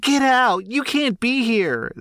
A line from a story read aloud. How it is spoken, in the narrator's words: she kept screaming